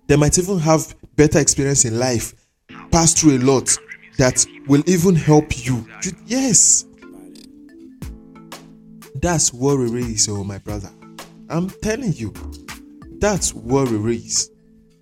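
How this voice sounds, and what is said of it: Speaks with a noticeable accent. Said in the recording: “Can't you hear my accent?”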